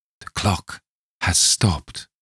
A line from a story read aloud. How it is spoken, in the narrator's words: he murmured